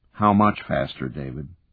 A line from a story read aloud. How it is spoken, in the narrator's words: Brooks sighed